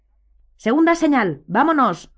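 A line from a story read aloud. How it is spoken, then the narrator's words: Shouted. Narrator (Spanish): gritó Lupin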